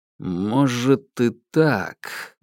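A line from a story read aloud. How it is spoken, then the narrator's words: Slow reply. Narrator (Russian): медленно ответил Уваров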